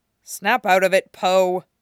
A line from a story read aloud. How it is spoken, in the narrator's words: he grumbled, trying not to flush with embarrassment